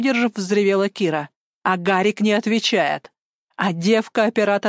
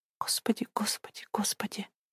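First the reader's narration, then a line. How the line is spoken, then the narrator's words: Whisper. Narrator (Russian): Шептала Лиза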